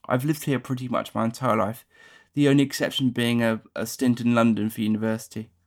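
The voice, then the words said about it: Surrey accent close to RP. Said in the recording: “my accent is pretty typical of that of someone from Surrey. It's quite close to received pronunciation ... very home counties”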